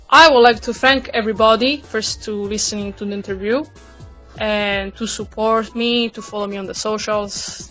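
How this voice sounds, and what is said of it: Speaks with an accent. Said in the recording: “It's been wonderful listening to your accent as well.”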